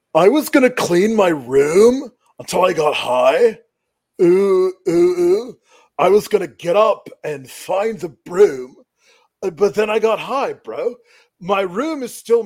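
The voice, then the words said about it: Imitates another person's voice, singing. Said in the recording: “my Matt Riddle impersonation singing Because I Got High by Afro Man ... my impression of Matt Riddle with his eyes closed”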